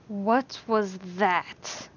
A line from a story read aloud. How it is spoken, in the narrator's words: Alan hissed